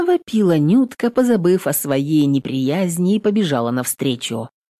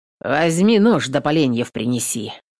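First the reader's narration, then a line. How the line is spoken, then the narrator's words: Curt, clipped speech. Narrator (Russian): отрывисто сказал басурман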